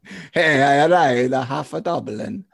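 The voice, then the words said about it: Put-on Italian accent. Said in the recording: “I love my Italian guy. ... I love your accents. They're all the same.”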